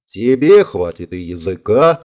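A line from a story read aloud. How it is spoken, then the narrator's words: Laughing loudly. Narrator (Russian): расхохотался Вик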